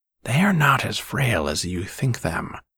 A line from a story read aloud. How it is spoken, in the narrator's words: said Nicol